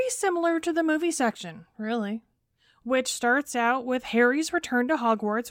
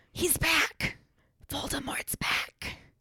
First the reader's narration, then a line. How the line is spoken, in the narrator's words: he whispers